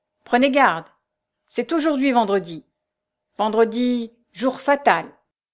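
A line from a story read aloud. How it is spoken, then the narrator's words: Shouted. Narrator (French): cria-t-il une dernière fois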